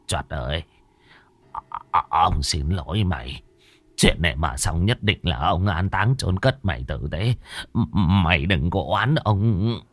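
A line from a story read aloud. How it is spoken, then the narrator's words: Muttering. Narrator (Vietnamese): Bá Khôi lẩm bẩm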